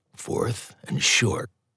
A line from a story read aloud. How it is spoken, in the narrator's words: with a whispered